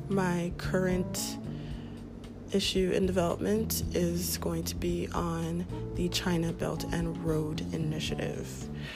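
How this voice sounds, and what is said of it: Voice sounds unwell. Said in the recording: “excuse my voice. I am a bit under the weather.”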